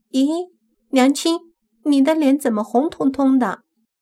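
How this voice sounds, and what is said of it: Crisp, clear childlike voice. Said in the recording (Chinese): “脆生生的声音”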